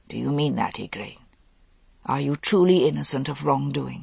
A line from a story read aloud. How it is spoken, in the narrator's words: He said, his voice husky